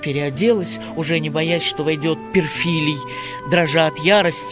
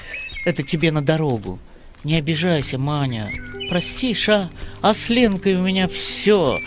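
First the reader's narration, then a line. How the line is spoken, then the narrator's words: Desperate and sad. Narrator (Russian): отчаянно и грустно сказал он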